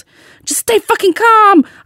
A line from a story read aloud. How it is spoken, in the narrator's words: yelled back